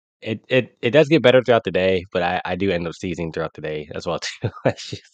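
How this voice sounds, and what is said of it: Congested, stuffy-nosed voice. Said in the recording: “My allergies have been acting up all week... In the morning, they're normally at their worst... if I sound congested”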